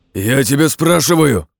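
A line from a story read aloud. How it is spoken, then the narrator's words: Growling again. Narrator (Russian): рыкнул еще раз Борзой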